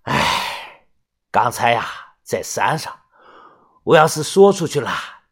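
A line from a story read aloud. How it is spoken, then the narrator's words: Sighing. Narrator (Chinese): 他叹了口气说道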